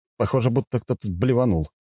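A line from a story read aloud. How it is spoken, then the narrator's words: Snort. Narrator (Russian): хмыкнул я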